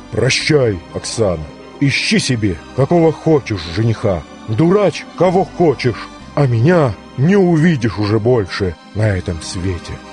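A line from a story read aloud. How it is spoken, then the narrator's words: Firm voice. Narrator (Russian): сказал твердым голосом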